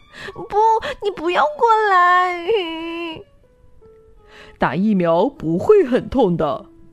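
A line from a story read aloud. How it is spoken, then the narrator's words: Loud shout. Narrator (Chinese): 大声喊道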